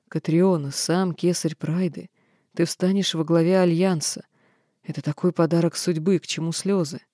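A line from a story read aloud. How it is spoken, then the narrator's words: Quiet reply. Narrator (Russian): тихо ответила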